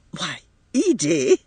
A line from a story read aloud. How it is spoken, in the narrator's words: cried her mother, repressing an inclination to laugh